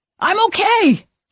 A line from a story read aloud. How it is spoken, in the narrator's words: he shouts